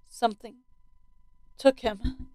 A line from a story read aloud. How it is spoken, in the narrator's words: I said quietly